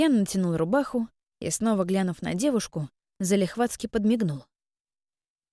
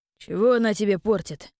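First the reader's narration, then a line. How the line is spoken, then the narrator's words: Cold reply. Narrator (Russian): холодно ответил первый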